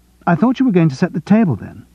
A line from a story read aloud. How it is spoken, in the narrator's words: she said sharply